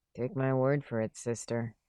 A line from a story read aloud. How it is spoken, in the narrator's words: Jerry said under his breath